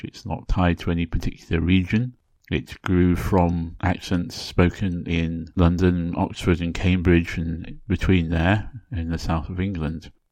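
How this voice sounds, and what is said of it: British RP accent. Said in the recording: “this accent I'm using now is known as RP, or Received Pronunciation ... this is more or less standard English”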